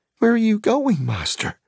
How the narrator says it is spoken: cried Sam, though at last he understood what was happening

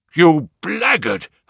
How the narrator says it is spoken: I shouted, beside myself with rage

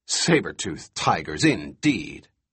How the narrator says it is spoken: His derisive snort

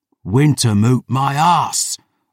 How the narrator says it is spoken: I roared

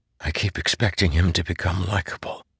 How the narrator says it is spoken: Kaladin whispered

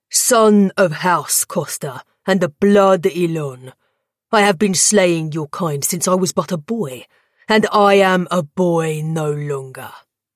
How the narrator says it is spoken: he'd roared to Danton

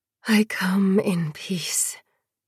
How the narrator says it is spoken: hissed

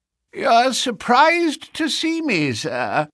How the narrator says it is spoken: said he in a strange, croaking voice

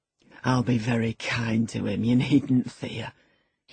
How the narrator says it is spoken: he said, laughing

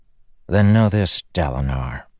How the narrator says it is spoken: Satius said, low, his voice like stone grinding stone

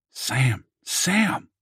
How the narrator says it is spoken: said quietly

